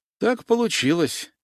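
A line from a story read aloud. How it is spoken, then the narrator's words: Sighing. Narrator (Russian): вздохнул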